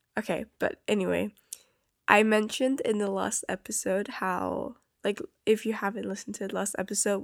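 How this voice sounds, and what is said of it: Sick-sounding voice. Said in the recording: “I sound sick, I am. I had quite a bad cold. I'm better now, but my voice is still, it sounds like I'm very sick... my voice doesn't sound like normal”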